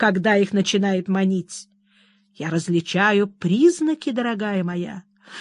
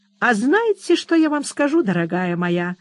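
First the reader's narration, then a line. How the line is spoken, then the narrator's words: Cheerful. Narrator (Russian): весело проговорила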